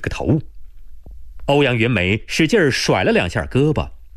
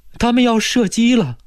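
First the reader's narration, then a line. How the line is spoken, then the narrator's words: Terrified, near tears. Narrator (Chinese): 郑小丽怕得要死 好像哭了似的说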